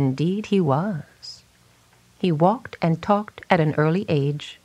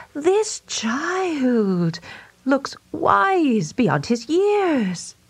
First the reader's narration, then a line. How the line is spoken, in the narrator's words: everyone around the cradle exclaimed